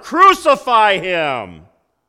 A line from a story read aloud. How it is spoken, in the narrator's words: they shouted all the louder